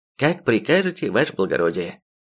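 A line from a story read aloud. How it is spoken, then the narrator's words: Innkeeper's cheerful snort. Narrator (Russian): Весело хмыкнул трактирщик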